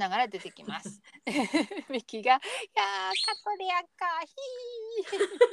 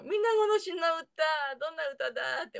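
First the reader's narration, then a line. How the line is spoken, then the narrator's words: Laughing. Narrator (Japanese): って笑ってましたね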